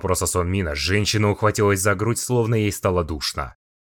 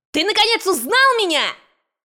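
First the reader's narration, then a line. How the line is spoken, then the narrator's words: Angry shout. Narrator (Russian): Крикнула в гневе Скарлетт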